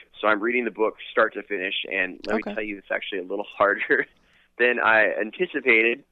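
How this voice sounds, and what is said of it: Slightly hoarse voice. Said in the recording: “My voice is a little hoarse”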